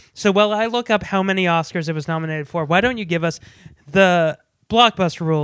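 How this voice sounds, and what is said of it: Usual voice. Nothing is said of it.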